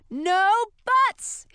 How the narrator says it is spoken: he shouted

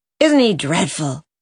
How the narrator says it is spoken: gasped as they went down the lane

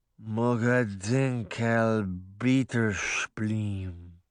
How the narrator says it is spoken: mumbled

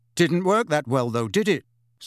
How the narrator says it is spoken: said Harry, doing his utmost to keep his voice even

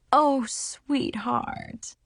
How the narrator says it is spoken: my mom sighed

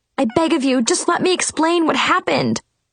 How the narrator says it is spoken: I pleaded desperately

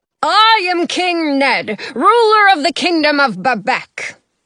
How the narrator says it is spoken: he bellows

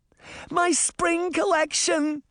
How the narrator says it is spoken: Twyla Rose shouted as she desperately tried to put out the fire

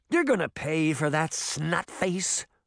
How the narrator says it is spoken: Puck snarled

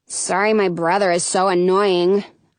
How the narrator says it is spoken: grumble

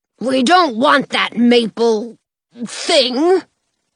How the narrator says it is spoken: Father Bear growls

